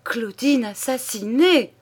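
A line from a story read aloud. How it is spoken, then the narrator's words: Exclaimed. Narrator (French): s'écria-t-il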